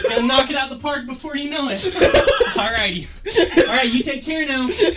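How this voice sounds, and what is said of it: Friendly next-door neighbor character voice. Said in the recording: “that neighbor impression”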